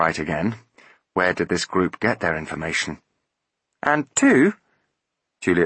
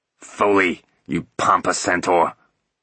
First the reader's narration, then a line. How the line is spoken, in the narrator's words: he barked into his mouthpiece